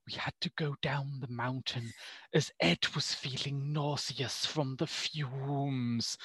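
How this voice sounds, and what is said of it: Werner Herzog impression, contemptuous tone. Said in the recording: “you do a Herzog impression ... the contempt in Herzog's voice”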